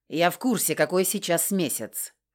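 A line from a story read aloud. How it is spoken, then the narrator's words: Snapped. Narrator (Russian): огрызнулся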